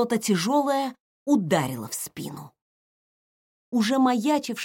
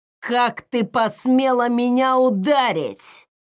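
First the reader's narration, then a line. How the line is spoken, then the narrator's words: Cursing male growl. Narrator (Russian): Смачно выругавшись матом, рыкнул мужчина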